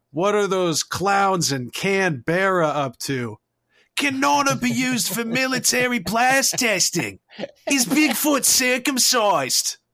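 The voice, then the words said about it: Poor imitation Australian accent. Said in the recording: “my awful Australian accent”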